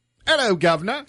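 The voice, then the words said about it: Fake British accent. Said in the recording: “talking a fake British accent.”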